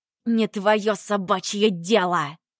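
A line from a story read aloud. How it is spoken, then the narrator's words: Hiss. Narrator (Russian): зашипела Ирен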